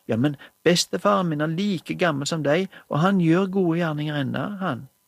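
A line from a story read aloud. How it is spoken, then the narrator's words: Eager. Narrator (Norwegian): sa Johannes ivrig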